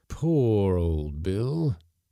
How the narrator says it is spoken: he exclaimed mournfully

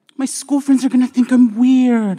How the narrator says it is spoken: I whined

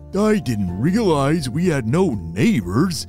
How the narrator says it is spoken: groaned Bo

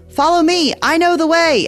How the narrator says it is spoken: yelled

